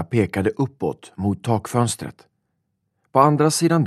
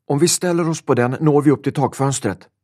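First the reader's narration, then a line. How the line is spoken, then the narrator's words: Shouting. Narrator (Swedish): ropade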